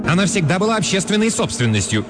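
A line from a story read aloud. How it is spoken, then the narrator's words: Angry cry. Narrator (Russian): сердито вскричала Миранда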